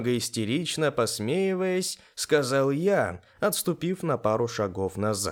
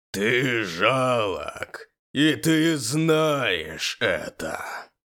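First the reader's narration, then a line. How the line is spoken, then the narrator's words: Mocking powerful bass. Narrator (Russian): Своим мощным басом насмехался надо мной монстр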